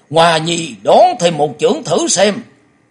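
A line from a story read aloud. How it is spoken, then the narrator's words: Old man shouting. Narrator (Vietnamese): Lão hét to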